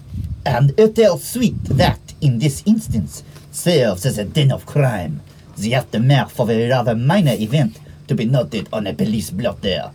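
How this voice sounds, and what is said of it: Shifting put-on accents while narrating. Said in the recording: “I don't know what accent I'm doing anymore. I went through like three.”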